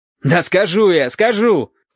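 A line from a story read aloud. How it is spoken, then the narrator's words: Shout. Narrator (Russian): крикнул Валентин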